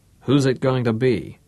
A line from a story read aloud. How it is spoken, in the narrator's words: asked cheerfully